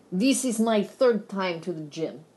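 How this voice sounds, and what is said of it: Exaggerated thick Russian accent. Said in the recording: “a Russian instructor ... He didn't have this thick an accent”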